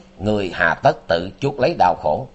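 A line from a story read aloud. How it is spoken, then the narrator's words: Cold. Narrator (Vietnamese): lạnh lùng nói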